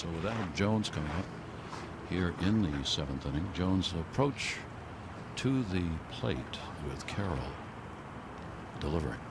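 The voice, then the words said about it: Hushed Masters golf announcer voice. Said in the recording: “doing his best Masters voice”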